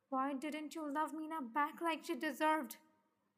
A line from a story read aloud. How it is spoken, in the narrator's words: Jimin asked angrily